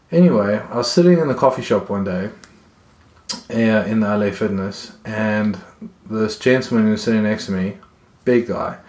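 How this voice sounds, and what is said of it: South African accent. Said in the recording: “that's South African accent”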